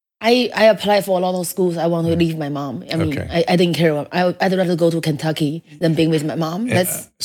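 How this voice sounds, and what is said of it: Heavy non-native English accent. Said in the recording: “Your English is excellent. The accent is a little heavy. ... it's heavy.”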